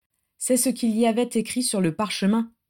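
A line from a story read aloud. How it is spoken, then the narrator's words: Flat, toneless voice. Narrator (French): dit Adam d'une voix blanche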